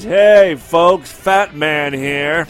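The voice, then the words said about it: Imitation of Fat Man's voice. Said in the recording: “the original Fat Man. I can't even do his voice.”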